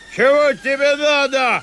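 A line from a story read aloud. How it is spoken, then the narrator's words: Shout. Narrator (Russian): крикнул он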